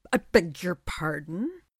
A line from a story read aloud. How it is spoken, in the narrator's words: He splutters